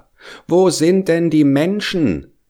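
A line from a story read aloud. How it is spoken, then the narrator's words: Child calling upward. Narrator (German): rief der kleine Hävelmann hinauf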